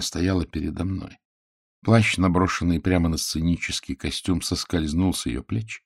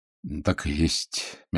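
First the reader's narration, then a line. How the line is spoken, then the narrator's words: Soft. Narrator (Russian): мягко ответил я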